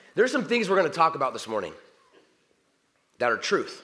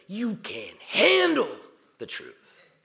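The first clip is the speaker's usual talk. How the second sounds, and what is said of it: Jack Nicholson impression. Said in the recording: “my best impression”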